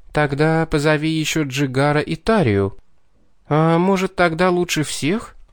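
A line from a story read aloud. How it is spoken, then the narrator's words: Uncertain suggestion. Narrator (Russian): Неуверенно предложила Мэджери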